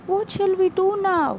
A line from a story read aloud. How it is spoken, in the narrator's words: the first frog exclaimed in fear